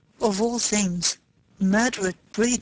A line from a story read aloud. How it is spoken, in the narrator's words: he said slowly, blankly